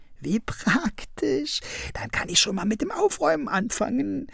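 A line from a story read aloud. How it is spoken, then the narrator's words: Giggling. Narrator (German): kicherte Krummel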